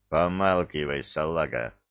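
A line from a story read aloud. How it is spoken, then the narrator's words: Lazy reply. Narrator (Russian): Лениво отозвался сибиряк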